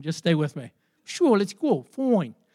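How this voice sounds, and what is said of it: Character voice with slight Bronx accent. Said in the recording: “He had like a little bit of a Bronx accent.”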